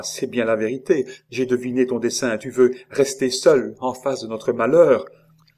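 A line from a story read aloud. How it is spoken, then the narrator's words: Exclaiming. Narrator (French): s'écria-t-elle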